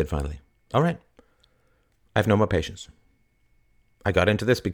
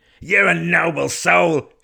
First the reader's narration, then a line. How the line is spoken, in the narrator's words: shouted Jake